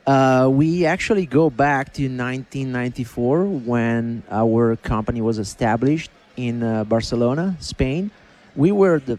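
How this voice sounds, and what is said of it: Foreign accent in English. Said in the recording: “Is that why you got an accent? ... The accent is not going to go anywhere.”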